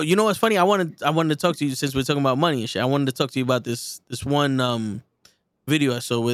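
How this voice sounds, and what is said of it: Usual voice. Nothing is said of it.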